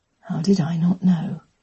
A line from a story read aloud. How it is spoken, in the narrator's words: he murmured